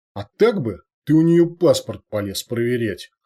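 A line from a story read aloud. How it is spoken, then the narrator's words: Smirking boulder. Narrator (Russian): хмыкнул булыжник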